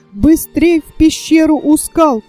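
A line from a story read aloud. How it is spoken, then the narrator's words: Shouting. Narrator (Russian): кричал Фердинанд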